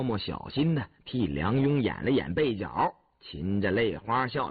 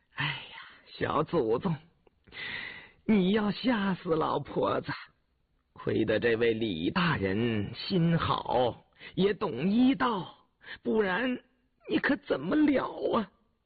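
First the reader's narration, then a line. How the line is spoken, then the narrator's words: Tearful. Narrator (Chinese): 一头说便拭泪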